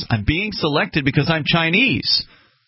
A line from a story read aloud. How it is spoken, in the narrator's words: Eventually yelling, he said more or less